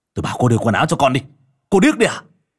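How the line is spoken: Angry scolding. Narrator (Vietnamese): Vũ nạt nộ

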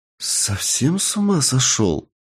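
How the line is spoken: Spellbound whisper. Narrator (Russian): завороженно прошептала девушка

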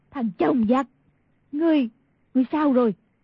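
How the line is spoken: Crying out. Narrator (Vietnamese): Y thị kêu lên

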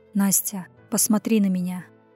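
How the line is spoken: Hoarse call. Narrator (Russian): Позвал хрипло

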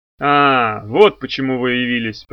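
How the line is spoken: Grumbled. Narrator (Russian): пробурчал Крэмер

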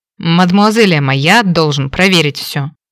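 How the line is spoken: Through teeth, wry smirk. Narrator (Russian): процедил сквозь зубы месье Мэтью, криво усмехнувшись

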